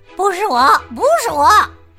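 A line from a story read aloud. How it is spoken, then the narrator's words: Weasel hissing. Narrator (Chinese): 鼬鼠嘶嘶的叫着说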